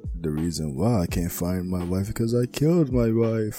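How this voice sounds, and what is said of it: Spooky vampire-like character voice. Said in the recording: “Why did you sound like a vampire?”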